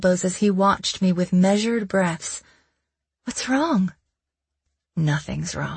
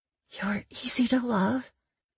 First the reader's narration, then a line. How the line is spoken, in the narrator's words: I whispered on the cusp of another wave of pleasure